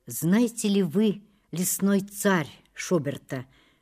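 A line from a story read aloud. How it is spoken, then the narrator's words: Plain. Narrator (Russian): спросил Рудин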